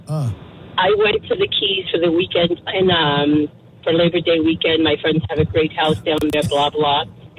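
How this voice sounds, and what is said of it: Congested voice from a cold. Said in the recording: “sorry about my voice. I have a really bad cold.”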